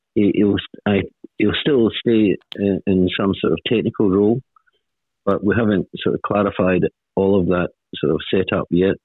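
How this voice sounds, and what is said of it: Scottish accent. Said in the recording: “I've got the strange accent, ... part Scot.”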